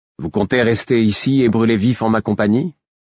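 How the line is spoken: Casual question. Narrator (French): demandai-je d'un ton dégagé

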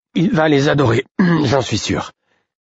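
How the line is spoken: Choked voice. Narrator (French): dis-je d'une voix étranglée

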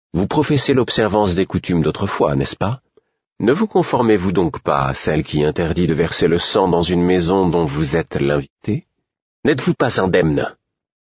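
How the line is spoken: Calm, composed tone. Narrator (French): fis-je d'un ton posé

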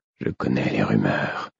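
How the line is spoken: Muffled voice. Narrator (French): reprit-il d'une voix sourde

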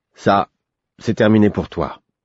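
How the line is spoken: Firm male voice. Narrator (French): me dit-il d'un ton ferme

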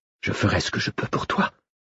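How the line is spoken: Whisper. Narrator (French): chuchota-t-elle

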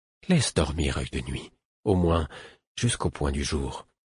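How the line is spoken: Half-voiced. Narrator (French): dit le fou à mi-voix

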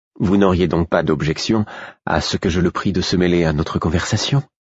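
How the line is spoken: Calm queen in pouring rain. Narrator (French): Malgré la pluie battante, la reine s'exprimait d'un ton aussi calme que si nous nous tenions sous un chaud soleil printanier

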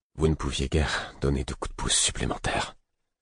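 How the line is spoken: Flat toneless voice. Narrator (French): répétai-je d'une voix atone

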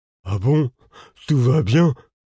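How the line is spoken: Pitiful question. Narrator (French): demanda Lourdes d'un ton pitoyable

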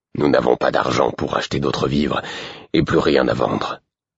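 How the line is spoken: Curt, reproachful. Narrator (French): répondit-il d'un ton sec, comme si c'était ma faute

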